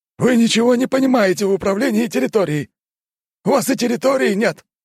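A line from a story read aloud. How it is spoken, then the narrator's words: Shout. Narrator (Russian): выкрикнул тот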